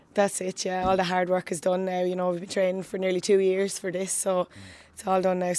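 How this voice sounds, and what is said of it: Slightly hoarse voice. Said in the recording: “I'm nearly hoarse already from, yeah. I suppose, you know, talking all day in the classroom”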